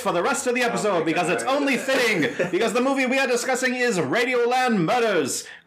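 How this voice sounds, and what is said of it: Announcer-style radio voice. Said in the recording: “doing my radio voice”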